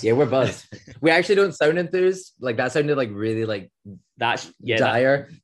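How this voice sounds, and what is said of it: Scottish accent. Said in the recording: “That's just the Scottish accent.”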